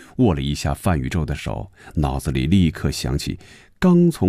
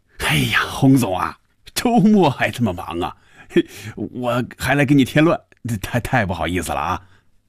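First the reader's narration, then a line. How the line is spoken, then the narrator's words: Cheerful, laughing. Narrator (Chinese): 范宇宙笑着说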